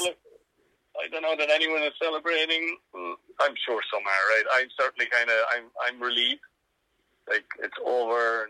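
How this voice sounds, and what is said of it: Tired-sounding voice. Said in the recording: “you sound tired”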